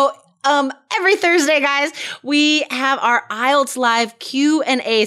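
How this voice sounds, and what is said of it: Usual voice. Nothing is said of it.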